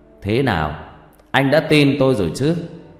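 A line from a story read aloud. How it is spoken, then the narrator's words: Loud laughing. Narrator (Vietnamese): cười to rồi bảo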